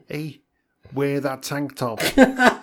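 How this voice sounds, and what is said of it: Put-on Liverpudlian Beatles-style accent. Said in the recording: “in a sort of Beatles act, Liverpudlian accent, which you can do better than me... Perfect. That's exactly how it sounds.”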